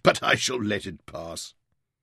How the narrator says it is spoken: he chuckled

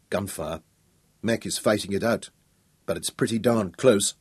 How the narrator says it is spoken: told Royan grimly

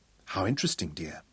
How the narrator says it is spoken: murmured

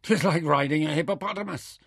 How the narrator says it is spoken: laughed breathlessly

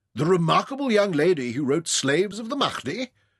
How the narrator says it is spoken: Adams exclaimed

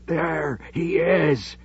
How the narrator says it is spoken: he croaked

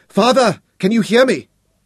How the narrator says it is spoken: he called desperately to him

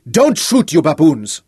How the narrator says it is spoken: a voice roared in commanding tones

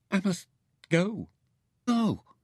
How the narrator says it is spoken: he pleaded

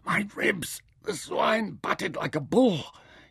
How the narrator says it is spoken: gasped

